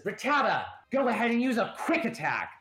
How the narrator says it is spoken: the girl who yelled at you all and then threw her Pokeball first, she says

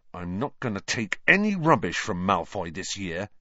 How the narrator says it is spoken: he said angrily

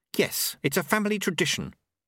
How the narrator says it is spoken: Susan snapped

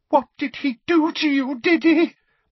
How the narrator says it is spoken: Aunt Petunia said in a quavering voice

